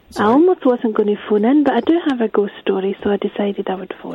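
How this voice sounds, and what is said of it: Scottish accent. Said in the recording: “Hasn't ... got a lovely voice? It's a Scottish accent. It's good, isn't it?”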